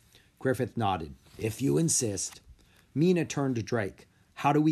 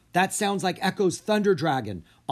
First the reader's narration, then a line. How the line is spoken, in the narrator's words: Anna cried